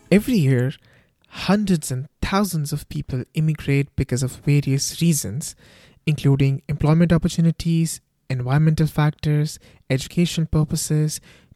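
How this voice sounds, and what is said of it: Thick Indian accent. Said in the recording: “you have such a thick Indian accent ... My Thick Accent”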